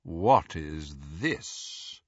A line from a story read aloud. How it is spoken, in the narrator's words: The dreadfully familiar, drawling voice of Lucius Malfoy